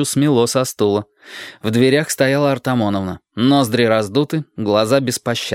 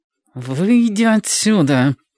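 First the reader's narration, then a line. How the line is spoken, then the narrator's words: Through gritted teeth. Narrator (Russian): процедила Ева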